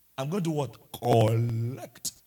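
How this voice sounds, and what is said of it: Put-on Nigerian male accent. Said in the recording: “In a Nigerian man's accent,”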